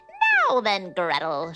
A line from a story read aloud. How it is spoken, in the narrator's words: she screeched